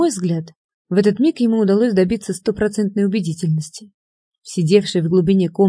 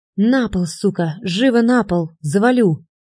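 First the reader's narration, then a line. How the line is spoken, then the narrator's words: Threatening hoarse rasp. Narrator (Russian): Чижов угрожающе прохрипел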